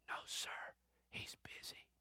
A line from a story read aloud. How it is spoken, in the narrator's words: The boy whispers